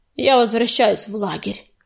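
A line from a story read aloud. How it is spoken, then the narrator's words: Through gritted teeth. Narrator (Russian): процедил через плечо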